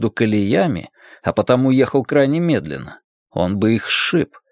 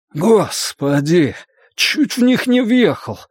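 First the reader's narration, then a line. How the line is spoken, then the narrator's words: Exhaled words. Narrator (Russian): выдохнул Фрэнки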